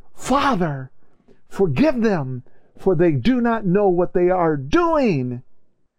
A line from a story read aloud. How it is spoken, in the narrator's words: the rock that cried